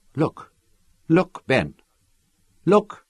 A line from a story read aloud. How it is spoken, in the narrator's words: Her voice was choked with emotion